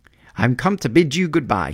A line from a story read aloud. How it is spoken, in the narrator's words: he cried